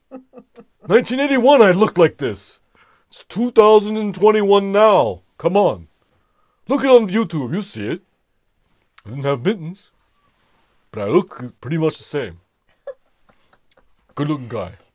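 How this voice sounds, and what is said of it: Bernie Sanders impression. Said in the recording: “You've been working on your impression. I like it. ... I like Bernie.”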